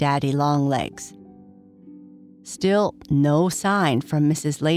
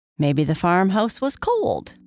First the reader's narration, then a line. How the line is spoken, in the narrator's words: suggested